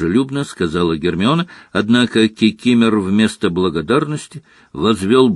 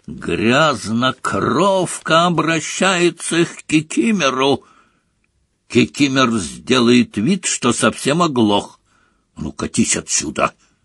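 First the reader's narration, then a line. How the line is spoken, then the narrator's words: Barking. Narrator (Russian): рявкнул Гарри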